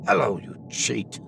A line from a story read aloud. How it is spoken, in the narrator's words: a sharp voice hissed